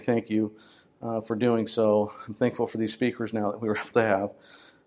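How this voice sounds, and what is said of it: Weak, tired-sounding voice. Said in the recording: “I'm feeling a little bit weak and my voice is weak”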